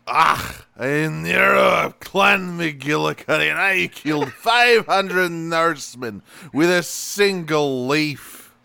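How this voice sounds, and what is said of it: Exaggerated Scottish-style put-on accent. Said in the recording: “I knew Echo's accent, or I knew ... accent was coming ... That's very good ... you props for going all out on that”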